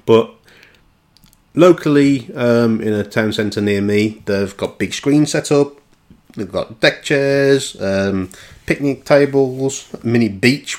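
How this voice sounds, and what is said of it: West Midlands English accent. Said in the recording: “I'm already based in the West Midlands, if the accent didn't give it away”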